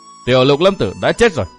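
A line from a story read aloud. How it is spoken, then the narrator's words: Laughing, changed voice. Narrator (Vietnamese): cười lớn một tràng, giọng nói lại biến thành một người khác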